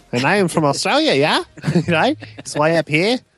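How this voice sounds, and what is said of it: Attempted Australian accent, sounds New Zealand. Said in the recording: “every time I try to do one, I just sound like Murray ... Flight of the Conchords, who I'm aware are from ... New Zealand”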